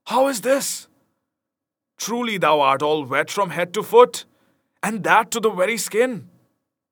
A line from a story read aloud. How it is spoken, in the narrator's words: cried Will